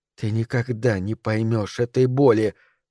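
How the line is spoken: Whispered reply. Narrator (Russian): прошептала она в ответ

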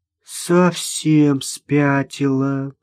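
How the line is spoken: Drawling. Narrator (Russian): протянула Вера

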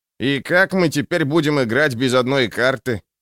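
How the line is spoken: Grumbling. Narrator (Russian): пробурчал Желток

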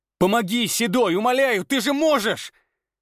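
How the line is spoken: Shouting. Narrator (Russian): он кричал

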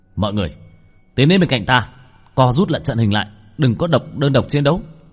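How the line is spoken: Sharp shout. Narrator (Vietnamese): Bạch Thường trong lòng ngẫm nhiên quát lên một tiếng

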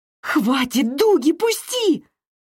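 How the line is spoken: Shrill squeal. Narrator (Russian): взвизгнула я

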